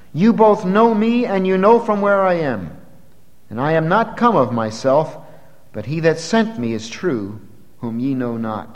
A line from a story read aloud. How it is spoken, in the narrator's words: he cried out in the temple as he taught, saying